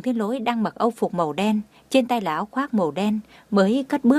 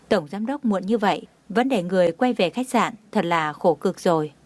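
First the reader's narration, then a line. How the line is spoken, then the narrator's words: Smiling. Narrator (Vietnamese): Đông Anh mỉm cười nói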